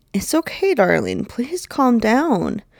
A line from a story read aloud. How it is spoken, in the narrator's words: Betty pleads